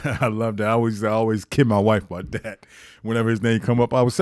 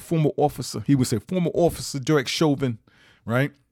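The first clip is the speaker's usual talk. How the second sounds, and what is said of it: Imitated strong New York accent. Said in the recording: “he had that strong New York accent... he would say in his New York accent... I don't know if I'm getting it right”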